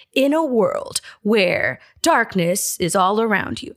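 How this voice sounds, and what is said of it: Dramatic movie-trailer narrator voice. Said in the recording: “that really dramatic narrator voice”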